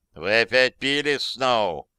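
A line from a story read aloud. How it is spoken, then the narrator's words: Unfriendly tone. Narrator (Russian): недобрым тоном начал резидент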